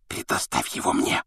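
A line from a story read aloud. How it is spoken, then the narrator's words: Whisper in ear. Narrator (Russian): шепнул он другу на ухо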